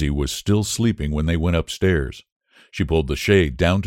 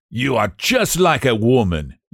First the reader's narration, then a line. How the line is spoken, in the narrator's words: yelled Behrman